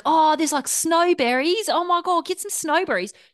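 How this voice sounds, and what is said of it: Unpolished New Zealand accent, sounding Australian. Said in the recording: “I'm not good at New Zealand accent. ... I haven't workshopped my New Zealand accent. So it's going to sound very Australian”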